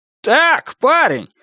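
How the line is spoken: Yelling. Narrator (Russian): заорал на него Клод

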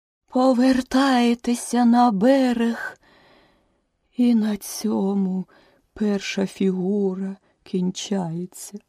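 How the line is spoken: Suddenly weakened voice. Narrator (Ukrainian): закінчила черепаха несподівано ослаблим голосом

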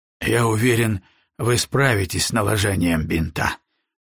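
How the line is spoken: Tired. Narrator (Russian): устало сказал он

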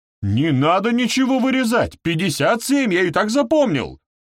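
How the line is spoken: Desperate yelling. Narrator (Russian): заорал бедняга

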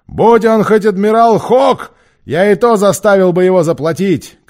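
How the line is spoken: Shouting. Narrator (Russian): кричал Сильвер

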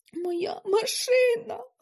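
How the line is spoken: Sob. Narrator (Ukrainian): схлипнув

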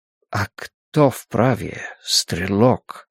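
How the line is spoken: Quiet question. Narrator (Russian): тихо спрашивает Гильермо

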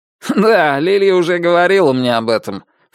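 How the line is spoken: Snort. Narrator (Russian): фыркнул Муландер

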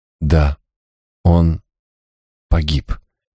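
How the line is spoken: Slow, young woman. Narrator (Russian): медленно проговорила девушка

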